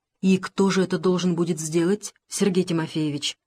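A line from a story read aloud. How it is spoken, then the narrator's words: Calm question. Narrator (Russian): спросил спокойно Дронов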